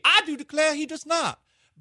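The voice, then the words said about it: Put-on Southern American accent. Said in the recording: “Does he have a better Southern accent than me?”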